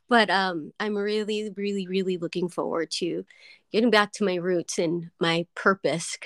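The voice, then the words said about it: Choked-up, near-tearful voice. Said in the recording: “getting choked up right now thinking about it, but I just want to cry and I'm going to try not to”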